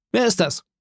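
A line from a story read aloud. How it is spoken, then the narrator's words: Calling out. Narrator (German): rief der Squire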